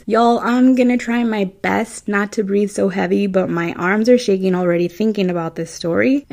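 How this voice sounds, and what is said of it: Midwestern American accent. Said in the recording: “That's my Midwestern accent coming through.”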